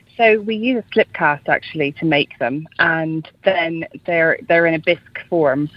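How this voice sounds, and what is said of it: Irish accent, Dublin. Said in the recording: “People might be able to tell from your accent ... you're Irish ... from Dublin”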